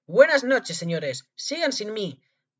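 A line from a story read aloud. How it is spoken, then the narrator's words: Mocking shout. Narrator (Spanish): gritó en un tono burlón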